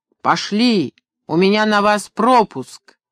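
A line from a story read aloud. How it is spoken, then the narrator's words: Shouted again. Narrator (Russian): крикнул еще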